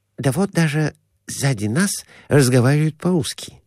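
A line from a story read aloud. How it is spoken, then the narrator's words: Whisper. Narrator (Russian): шепнул доктор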